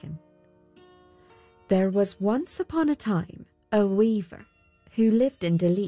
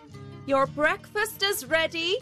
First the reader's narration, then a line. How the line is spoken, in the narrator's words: his housekeeper called out